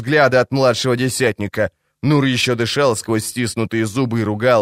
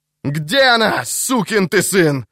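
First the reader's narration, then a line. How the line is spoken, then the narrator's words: Yelling. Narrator (Russian): заорал он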